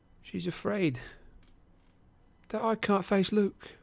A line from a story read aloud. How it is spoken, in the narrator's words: she said miserably